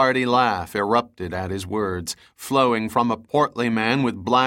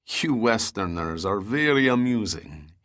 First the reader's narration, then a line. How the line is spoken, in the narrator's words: chuckled in a heavily accented voice